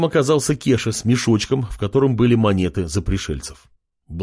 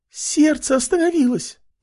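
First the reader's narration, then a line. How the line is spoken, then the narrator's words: Mouse's squeak. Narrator (Russian): пискнула мышка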